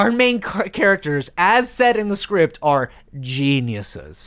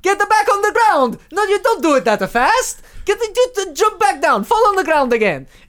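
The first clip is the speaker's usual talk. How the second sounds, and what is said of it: Exaggerated put-on Italian accent. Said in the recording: “I don't know about that Italian accent.”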